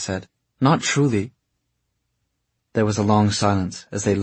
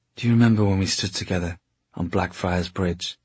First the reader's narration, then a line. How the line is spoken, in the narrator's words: He asked softly